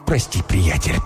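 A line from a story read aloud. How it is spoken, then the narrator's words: Strained mutter through teeth. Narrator (Russian): пробормотал он, стиснув зубы от напряжения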